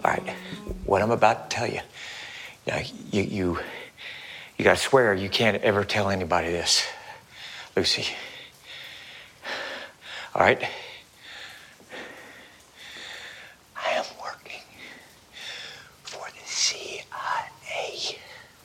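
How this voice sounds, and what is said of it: Intense whisper. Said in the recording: “still intense, even when he's whispering”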